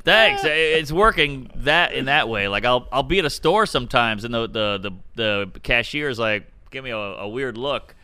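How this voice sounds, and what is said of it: Unusual, distinctive old-school voice. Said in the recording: “where'd you get your voice? Is wild. ... I got a weird voice. ... You got like an old school voice.”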